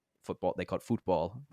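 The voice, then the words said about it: Bad put-on British accent. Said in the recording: “that was a really bad British accent”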